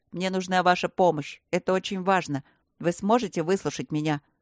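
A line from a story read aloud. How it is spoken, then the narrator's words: Deep bass reply. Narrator (Russian): пробасил в ответ Матвей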